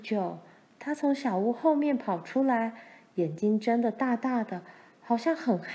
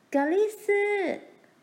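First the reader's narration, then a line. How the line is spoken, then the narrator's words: Calling out while running. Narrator (Chinese): 他一面跑一面叫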